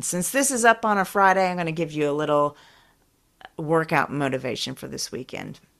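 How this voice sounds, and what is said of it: Slightly unwell, allergy-affected voice. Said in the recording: “I'm not feeling that great. You can probably hear it in my voice a little bit. It is allergy time”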